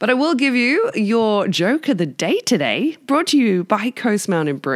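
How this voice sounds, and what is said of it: Usual voice. Nothing is said of it.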